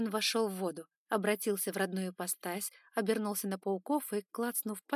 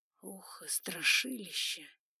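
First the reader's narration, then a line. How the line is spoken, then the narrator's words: Grumbled. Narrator (Russian): буркнул Эван Байринг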